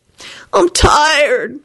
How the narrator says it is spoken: moaned Kenny

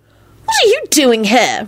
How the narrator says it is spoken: Rosie squealed angrily

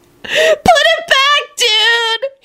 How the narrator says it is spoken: he shrieked desperately

